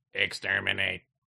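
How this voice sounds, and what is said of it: Trash can robot voice, Dalek. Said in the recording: “The trash can robot voice.”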